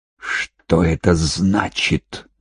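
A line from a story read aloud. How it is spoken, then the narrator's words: Hissed. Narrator (Russian): прошипела она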